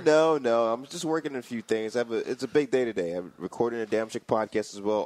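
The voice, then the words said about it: Tired-sounding voice. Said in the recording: “You sound a little tired.”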